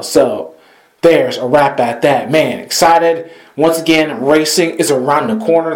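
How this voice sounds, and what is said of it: Slightly squeaky voice. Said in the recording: “my voice is a little squeaky towards the end”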